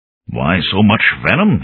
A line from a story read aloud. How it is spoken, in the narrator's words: Inskip asked in an arid voice